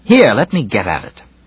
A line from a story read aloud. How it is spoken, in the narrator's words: Then sharply and angrily